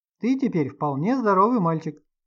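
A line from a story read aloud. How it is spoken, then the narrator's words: Joyful. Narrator (Russian): радостно заключил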